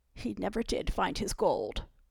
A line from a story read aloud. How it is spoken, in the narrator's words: George choked after he'd breathed his last